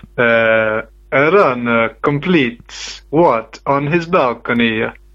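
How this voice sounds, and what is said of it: Put-on thick Italian accent. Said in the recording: “can you please put up a thick Italian accent ... I'm kind of interested whether my Italian accent will work ... I was channeling my inner ... Italian ... alter ego”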